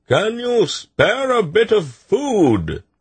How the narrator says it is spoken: the Malcine shouted

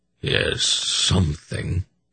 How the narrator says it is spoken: he grunted with some surprise

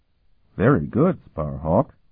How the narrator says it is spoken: Hurek said dryly

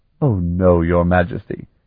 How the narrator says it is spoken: he laughed

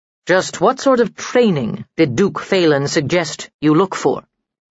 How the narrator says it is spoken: asked Sir Felis

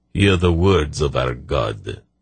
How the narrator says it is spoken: Herakan intoned in that same sardonic voice

